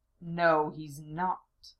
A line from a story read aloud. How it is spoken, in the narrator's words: Zelos growled in a husky voice